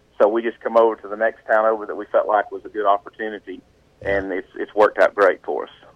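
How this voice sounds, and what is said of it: Southern mountain accent. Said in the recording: “as you can tell by the way I talk on this interview, I am a mountain guy... My southern accent”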